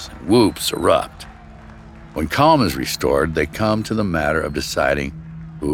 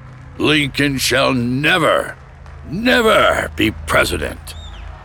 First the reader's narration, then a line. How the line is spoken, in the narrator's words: he hollers above the growing roar of approval